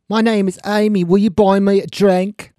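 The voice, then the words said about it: Bad fake English accent. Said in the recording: “That is the worst fake English accent I've ever heard.”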